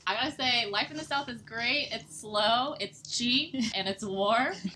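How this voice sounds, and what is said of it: Slight Southern twang. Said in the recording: “my little twang”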